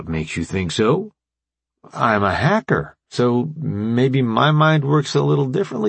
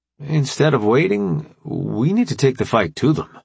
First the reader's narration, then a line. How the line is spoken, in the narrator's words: AJ said, his voice thoughtful